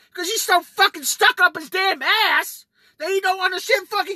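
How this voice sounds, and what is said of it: Yelling, worked up. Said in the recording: “Sorry for yelling. ... I really get worked up”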